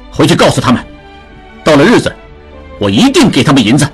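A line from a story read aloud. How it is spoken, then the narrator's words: Sudden loud. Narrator (Chinese): 志庸突然大声说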